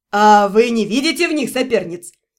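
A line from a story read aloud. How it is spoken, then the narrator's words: Skeptical snort. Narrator (Russian): хмыкнул Ремир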